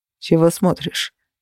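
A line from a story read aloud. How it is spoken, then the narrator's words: Cold. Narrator (Russian): холодно произнес Феникс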